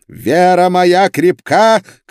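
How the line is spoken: Shout. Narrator (Russian): крикнул инквизитор

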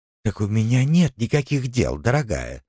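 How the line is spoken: Feigned sigh, old woman. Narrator (Russian): притворно вздохнула старая проказница

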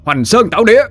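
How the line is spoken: Shouting. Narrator (Vietnamese): Dũng ... quát

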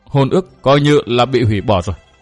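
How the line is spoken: Choked, tearful reply. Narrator (Vietnamese): Hồng Nương Tử nghẹn ngào đáp

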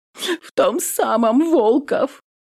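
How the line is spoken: Hurt sobbing over speaker. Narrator (Russian): Всхлипывает Рязанцева в динамике, обиженно

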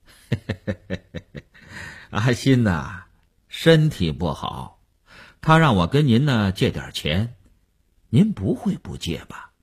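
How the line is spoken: Chuckling, blunt, over phone. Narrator (Chinese): 那个人在电话里嘿嘿地笑了，直截了当地说

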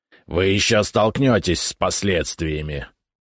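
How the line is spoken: Growling. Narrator (Russian): прорычал князь

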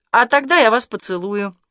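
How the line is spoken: Cheerful impulsive blurt. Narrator (Russian): весело и неожиданно для себя выпалил Артем

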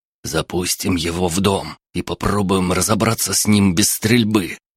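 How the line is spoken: Whisper. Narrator (Russian): прошептал Эдуард

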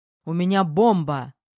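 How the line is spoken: Shouted out. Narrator (Russian): выкрикнул я

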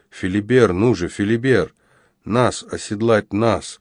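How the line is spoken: Thin strained old man's voice. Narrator (Russian): тоненьким голоском выдавил из себя старик

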